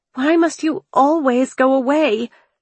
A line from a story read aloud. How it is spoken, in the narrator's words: cried